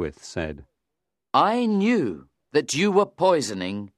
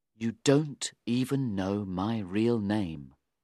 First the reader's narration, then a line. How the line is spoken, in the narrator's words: he said very quietly